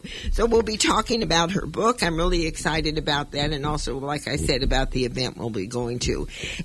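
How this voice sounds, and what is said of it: Rough, slightly hoarse voice. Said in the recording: “my voice is a little bit rough. I don't know. Sometimes I lose my voice.”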